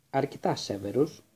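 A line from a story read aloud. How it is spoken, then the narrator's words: Calm. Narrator (Greek): είπε ήρεμα ο Ντάμπλντορ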